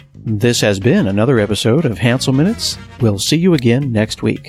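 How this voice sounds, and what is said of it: Announcer-style radio voice. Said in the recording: “Now I'm going to turn on my radio voice.”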